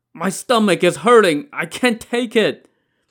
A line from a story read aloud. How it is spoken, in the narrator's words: Wu Dalang let out a groan